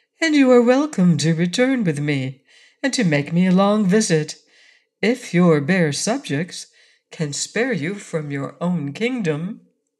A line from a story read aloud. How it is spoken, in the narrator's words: returned Ozma sweetly